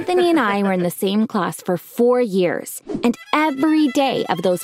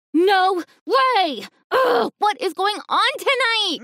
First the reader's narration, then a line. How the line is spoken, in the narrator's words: screamed